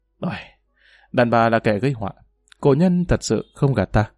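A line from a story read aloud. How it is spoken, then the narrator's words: Sighing. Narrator (Vietnamese): Triệu Phong Tử thở dài nói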